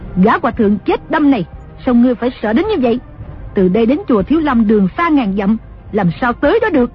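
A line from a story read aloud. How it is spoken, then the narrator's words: Angry. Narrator (Vietnamese): Đồng mổ tức giận nói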